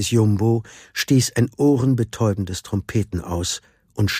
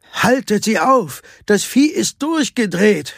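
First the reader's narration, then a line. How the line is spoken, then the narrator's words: Shouted. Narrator (German): schrie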